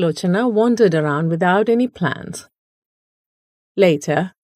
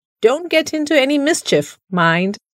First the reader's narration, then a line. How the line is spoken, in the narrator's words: called out